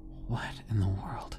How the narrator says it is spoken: the policeman muttered

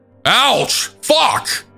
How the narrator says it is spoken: a man start screaming

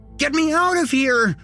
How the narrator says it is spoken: screamed

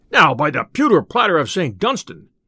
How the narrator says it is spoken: cried the tinker

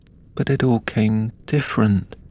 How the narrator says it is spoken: Alice replied in a very melancholy voice

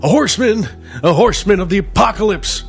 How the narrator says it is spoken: one of the men shouted, spit flying from his rabid lips

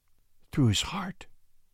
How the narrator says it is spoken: she whispered

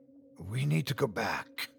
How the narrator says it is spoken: I said in a harsh whisper

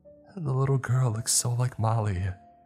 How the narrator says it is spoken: she said, wistfully

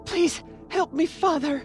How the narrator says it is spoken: pleaded

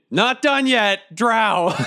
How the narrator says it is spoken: I yell over to the Union

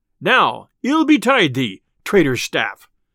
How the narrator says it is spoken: cried Robin

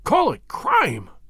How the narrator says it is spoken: cried Morris, his voice vibrating with passion

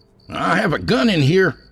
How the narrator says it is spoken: Ryan shouted

